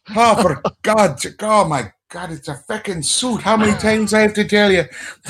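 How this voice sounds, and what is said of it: Put-on Irish accent. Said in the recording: “my mother's accent ... your mom has the best accent ... mom is Irish, like Ireland Irish”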